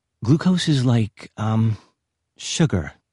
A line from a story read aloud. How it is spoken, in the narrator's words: said, voice faltering